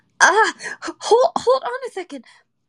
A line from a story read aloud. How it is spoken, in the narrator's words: I cried as I frantically followed her